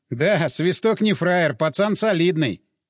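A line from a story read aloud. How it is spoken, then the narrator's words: Laughing. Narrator (Russian): Крюка засмеялся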